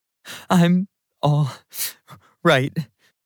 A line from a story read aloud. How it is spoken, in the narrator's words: I said through my sobbing